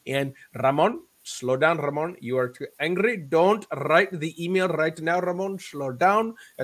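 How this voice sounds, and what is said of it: Imitated Indian accent. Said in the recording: “An Indian Hindu gentleman ... That's a poor accent that he had ... I mimic him in honor”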